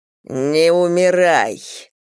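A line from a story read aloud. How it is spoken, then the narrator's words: Growl. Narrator (Russian): прорычал он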